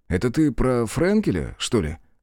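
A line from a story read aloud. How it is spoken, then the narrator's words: Slightly lazy question. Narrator (Russian): Чуть лениво спросил я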